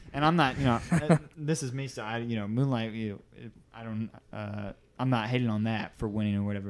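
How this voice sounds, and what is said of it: Usual voice. Nothing is said of it.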